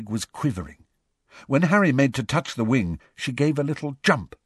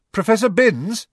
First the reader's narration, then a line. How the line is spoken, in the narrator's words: said Harry loudly